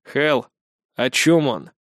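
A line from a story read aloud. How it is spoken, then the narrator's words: Icy repeated question. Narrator (Russian): Ледяным тоном повторяет вопрос Кихару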